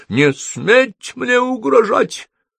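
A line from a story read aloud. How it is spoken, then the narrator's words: Tired, cracking shout. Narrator (Russian): усталым ломким голосом крикнула она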